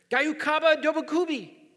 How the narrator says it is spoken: yelled

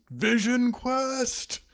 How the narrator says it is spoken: screams

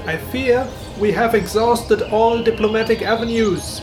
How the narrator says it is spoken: the rabbit shouted down to him

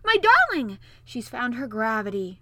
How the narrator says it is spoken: her old nurse uttered a yell of delight and … screaming

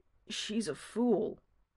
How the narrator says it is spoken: he says in a quiet voice

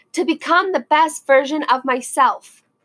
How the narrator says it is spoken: they cried out together

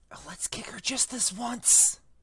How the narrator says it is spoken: Ron whispered in Harry's ear

